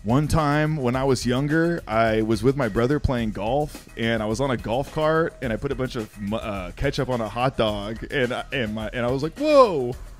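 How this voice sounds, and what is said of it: Impression of a white guy voice. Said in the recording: “your best white guy impression ... my best white guy impression”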